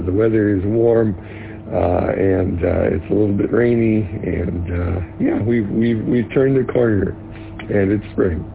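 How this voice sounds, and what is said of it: Slightly harsh, rough voice. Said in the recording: “my voice is a little bit harsh today”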